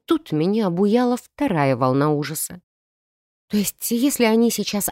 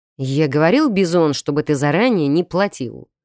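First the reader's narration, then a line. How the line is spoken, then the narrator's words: Brutish growl. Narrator (Russian): рыкнул третий, натуральный кхалдрога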